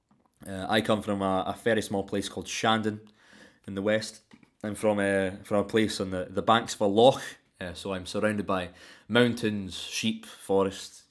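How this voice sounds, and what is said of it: General West Coast Scottish accent. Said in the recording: “My accent is, I suppose, what you can be best described as a general West Coast Scottish accent. ... My accent is very influenced by the language of Scots itself.”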